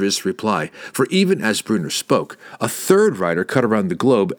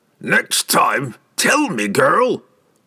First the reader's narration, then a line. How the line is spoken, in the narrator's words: Brunner roared at Catterby and spitted sand with every word